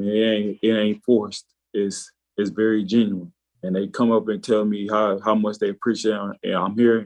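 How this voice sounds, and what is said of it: Arkansas accent. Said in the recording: “You can hear that Arkansas accent in his voice”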